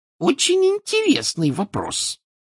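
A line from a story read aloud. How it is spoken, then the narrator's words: Shrill answer. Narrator (Russian): визгливо ответила она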